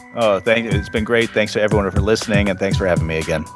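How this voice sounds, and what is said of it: Smooth, pleasant radio-style voice. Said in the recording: “radio voice ... I love that radio voice ... a good sounding voice”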